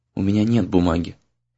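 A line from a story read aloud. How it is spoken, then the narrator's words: Very sad. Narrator (Russian): произнесла она очень грустно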